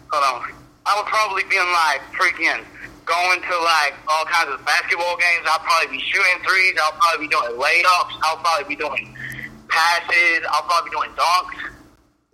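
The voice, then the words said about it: Put-on Southern accent. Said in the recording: “such a good Southern accent”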